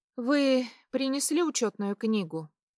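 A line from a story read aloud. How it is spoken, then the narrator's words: Sighing. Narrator (Russian): Вздохнула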